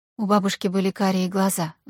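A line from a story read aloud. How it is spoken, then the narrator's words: Sigh. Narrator (Russian): вздохнула Аня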